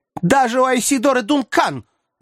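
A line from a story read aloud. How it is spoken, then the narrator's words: Ringing female shout. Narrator (Russian): звонко крикнула женщина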